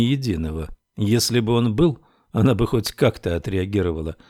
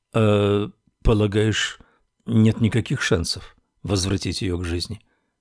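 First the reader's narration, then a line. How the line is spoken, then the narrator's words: Uncertain question. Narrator (Russian): неуверенно спросил Саймон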